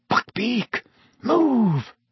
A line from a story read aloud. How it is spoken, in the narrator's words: Harry hissed